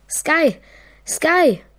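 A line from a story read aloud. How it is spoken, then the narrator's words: Calling. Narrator (German): Und ich rief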